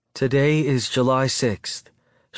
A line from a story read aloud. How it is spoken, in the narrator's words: she says, her voice soft and nervous